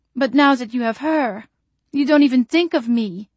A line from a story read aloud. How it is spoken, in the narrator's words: Janine begged, her voice reedy and desperate